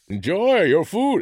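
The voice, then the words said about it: Bane character voice. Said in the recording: “I did a Bane voice. ... I liked it. I thought it was good.”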